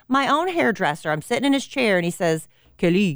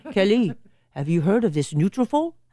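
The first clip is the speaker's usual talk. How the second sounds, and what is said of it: Put-on accent imitating another person. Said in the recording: “he has an accent ... I'm not going to do the accent anymore.”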